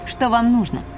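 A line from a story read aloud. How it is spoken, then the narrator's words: Plain question. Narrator (Russian): спросила я ее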